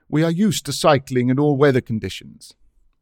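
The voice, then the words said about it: Vigorous, energetic voice. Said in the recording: “the man said in a vigorous voice.”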